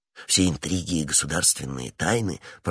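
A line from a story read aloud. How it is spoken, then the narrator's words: Low undertone. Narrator (Russian): продолжал вполголоса Д'Артаньян, последовав совету Атоса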